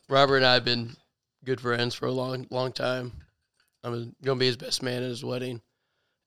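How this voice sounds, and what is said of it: Hoarse, rough voice. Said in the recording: “a little hoarse. ... sound pretty bad”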